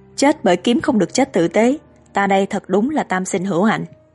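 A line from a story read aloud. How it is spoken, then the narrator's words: Delighted loud laughter. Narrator (Vietnamese): Hàn Uyên nghe vậy rất cao hứng, cười to nói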